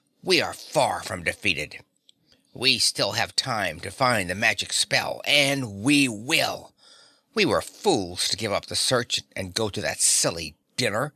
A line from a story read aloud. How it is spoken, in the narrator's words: she concluded bitterly